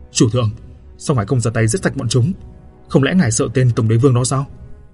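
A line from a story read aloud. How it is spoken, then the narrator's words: Angry. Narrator (Vietnamese): Đào Ngột nói bằng cái giọng giận dữ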